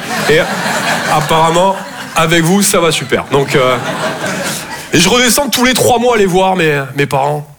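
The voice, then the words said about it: Toulouse southern French accent. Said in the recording (French): “Je viens de Toulouse, à la base. Ouais, ça s'entend un peu... mon accent”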